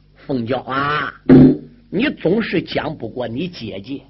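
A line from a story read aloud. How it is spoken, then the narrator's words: Sighing old man. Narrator (Chinese): 老员外叹了一口气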